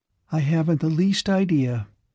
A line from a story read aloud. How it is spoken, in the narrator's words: said Aletha calmly